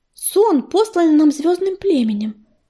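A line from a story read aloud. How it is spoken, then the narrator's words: Timid answer. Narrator (Russian): робко ответила ласточка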